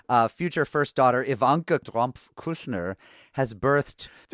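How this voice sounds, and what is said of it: Put-on Israeli accent. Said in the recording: “what is that accent? Is it part Swedish, part German, part ... it was Israeli”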